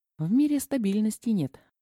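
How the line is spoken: Sad. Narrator (Russian): грустно сообщила Даша

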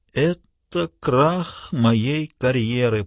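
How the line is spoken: Groaning. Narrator (Russian): простонал Смитбек

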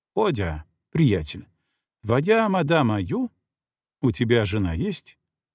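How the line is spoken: Curious questioning voice. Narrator (Russian): Любопытствующим голосом он спрашивал фельдшера

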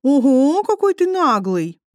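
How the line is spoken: Joking drawl. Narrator (Russian): протянула Мэй, но, кажется, в шутку

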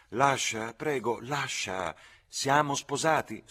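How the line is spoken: Soft, gentle. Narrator (Italian): Lucy disse dolcemente

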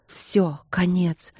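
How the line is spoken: Fearful whisper. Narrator (Russian): Страх шептал

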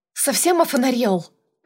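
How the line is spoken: Angry bark. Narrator (Russian): рявкнула

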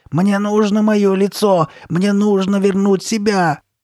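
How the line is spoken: Full-throated screaming. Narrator (Russian): Она кричала во все горло

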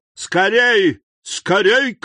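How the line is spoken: Startling urgent shout. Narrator (Russian): крикнул он таким голосом, что кучер привскочил на козлах

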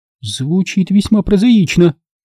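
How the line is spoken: Exclamation. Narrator (Russian): воскликнула девушка

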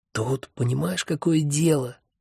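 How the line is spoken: Confidential whisper. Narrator (Russian): доверительно зашептал я

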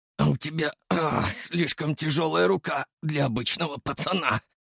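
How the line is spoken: Gruff mutter, spitting blood. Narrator (Russian): буркнул он, сплюнув кровь

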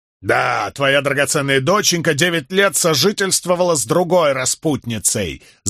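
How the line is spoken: Yelling. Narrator (Russian): заорал он

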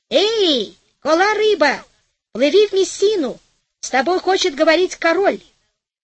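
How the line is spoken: Cupped-hands shout. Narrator (Russian): Матрос приставил ко рту ладони и закричал

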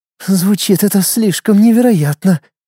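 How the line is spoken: Hoarse, shock-dried throat. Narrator (Russian): резко пересохшим от шока горлом прохрипела Луиза

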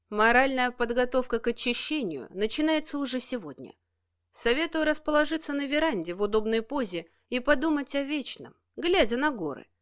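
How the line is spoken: Calm reply. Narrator (Russian): спокойно отозвался Денис

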